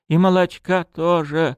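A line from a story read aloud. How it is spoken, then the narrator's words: Sobbing woman. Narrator (Russian): вновь всхлипнула женщина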